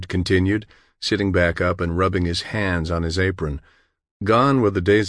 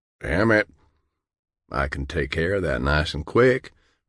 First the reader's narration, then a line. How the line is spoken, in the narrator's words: All John could do was mutter a strangled